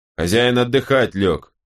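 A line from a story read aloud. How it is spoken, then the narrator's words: Barked. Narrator (Russian): рявкнул Накар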